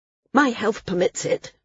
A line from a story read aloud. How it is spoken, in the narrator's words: Maris snapped